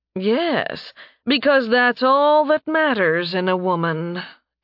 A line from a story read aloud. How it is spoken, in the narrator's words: Kadria drawled